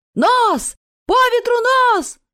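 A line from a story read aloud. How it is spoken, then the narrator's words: Captain shouting. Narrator (Russian): закричал рулевому капитан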